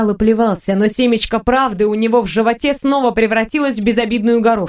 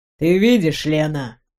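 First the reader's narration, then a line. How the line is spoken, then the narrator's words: Tired. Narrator (Russian): устало сказал Максимилиан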